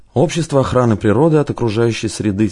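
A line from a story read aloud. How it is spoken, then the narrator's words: Quiet prompting. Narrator (Russian): тихонько подсказал Рузаев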